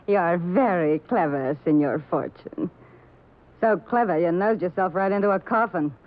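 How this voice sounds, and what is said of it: New York accent. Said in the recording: “with the New York accent”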